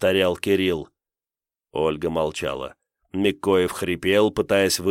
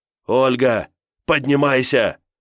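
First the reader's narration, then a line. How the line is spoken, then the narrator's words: Shout. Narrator (Russian): Кирилл кричал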